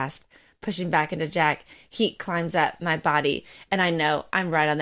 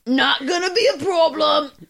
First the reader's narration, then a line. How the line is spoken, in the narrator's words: Jack grunts behind me